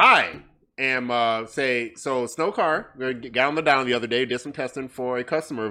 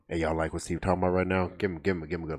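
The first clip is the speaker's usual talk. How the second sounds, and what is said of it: Put-on deep voice. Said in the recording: “Got deep voice on. ... I got the deep voice on.”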